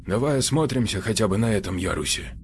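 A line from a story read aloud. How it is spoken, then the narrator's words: Barely audible suggestion. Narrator (Russian): едва слышно предложил Ионников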